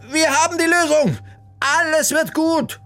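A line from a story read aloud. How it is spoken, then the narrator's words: Called out. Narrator (German): rief sie den beiden entgegen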